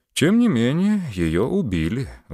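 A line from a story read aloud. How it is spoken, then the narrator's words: Sigh. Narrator (Russian): вздохнул Муравьев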